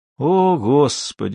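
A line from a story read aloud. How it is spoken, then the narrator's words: Sigh. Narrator (Russian): вздохнул Кармоди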